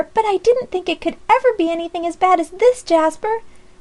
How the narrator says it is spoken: cried Polly in despair

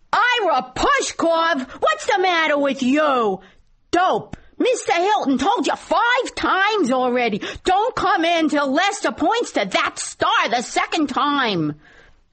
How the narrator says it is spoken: I roared

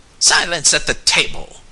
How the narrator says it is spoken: came in the sharp tones of Josiah Crabtree

